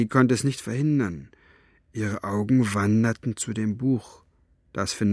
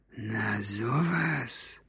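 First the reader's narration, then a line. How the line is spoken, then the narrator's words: Murmur. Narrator (German): murmelte er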